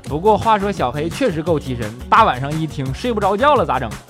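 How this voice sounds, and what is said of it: Northeastern Chinese accent. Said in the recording (Chinese): “要不是你是东北口音”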